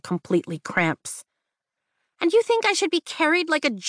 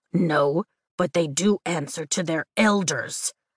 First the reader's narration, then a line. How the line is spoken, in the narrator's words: Tern grunts